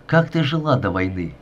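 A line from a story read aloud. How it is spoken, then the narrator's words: Plain. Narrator (Russian): спросил я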